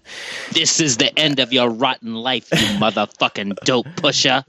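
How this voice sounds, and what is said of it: Impression of Pam Grier's Coffy. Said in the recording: “my Coffee impersonation”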